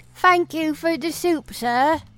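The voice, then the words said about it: Put-on British accent. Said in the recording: “I didn't have a British accent until my parents died? ... I'm from Oklahoma.”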